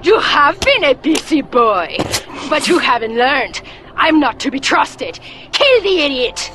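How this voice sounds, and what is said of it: Bad mixed French-Cholo accent. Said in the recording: “worst accents ... That is horrible ... It's a little bit of French, a little bit of Cholo.”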